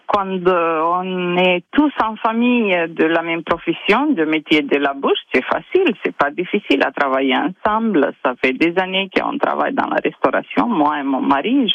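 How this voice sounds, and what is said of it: Slight foreign accent. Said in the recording (French): “il y a un petit accent ... Il y a un petit accent qui nous fait voyager”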